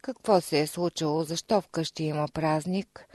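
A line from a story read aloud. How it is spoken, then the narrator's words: Plain question. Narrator (Bulgarian): попитал той слугите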